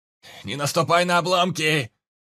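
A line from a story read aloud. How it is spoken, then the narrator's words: Shouted from behind. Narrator (Russian): крикнул идущий чуть позади Анджей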